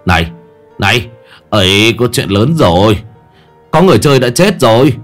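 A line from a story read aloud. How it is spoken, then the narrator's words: Shout. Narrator (Vietnamese): La Hổ bèn hét lên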